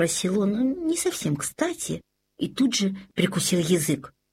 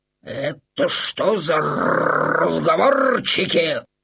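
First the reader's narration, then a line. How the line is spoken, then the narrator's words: Grumbling. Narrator (Russian): проворчал Максимилиан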